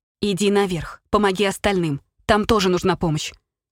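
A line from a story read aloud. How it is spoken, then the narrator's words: Sharper reply. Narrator (Russian): уже более резко ответила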